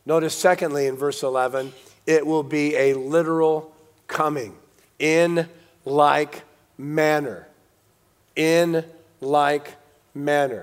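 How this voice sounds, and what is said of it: Voice in poor condition. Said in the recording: “my voice is so bad tonight”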